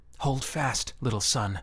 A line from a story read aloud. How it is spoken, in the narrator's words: whisper to the child